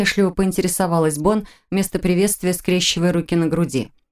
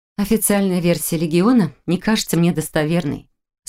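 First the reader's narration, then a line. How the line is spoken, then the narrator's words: Calm explanation. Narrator (Russian): спокойно объяснила она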